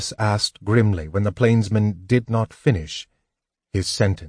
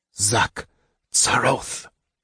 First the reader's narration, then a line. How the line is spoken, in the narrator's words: Raistlin hissed